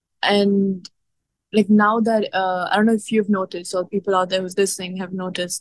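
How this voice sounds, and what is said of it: Indian-accented English. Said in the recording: “criticism of my accent, ... how I speak, my Indian comes out”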